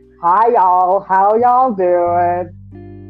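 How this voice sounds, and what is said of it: Exaggerated country accent impression. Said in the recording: “impersonate people. I suck at it ... She's not that country ... she has a man's voice”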